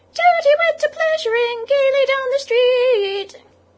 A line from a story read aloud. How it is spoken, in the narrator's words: the Chief Weasel, for it was he, began in a high, squeaky voice